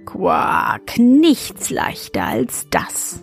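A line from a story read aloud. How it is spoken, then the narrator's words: Plain frog voice. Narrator (German): sagte der Frosch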